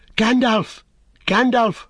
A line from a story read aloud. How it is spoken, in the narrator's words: cried Pippin